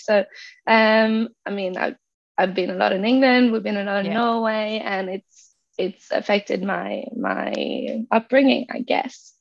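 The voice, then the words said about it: Slight English-tinged accent. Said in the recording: “it really has a little bit of a pommy tinge in there”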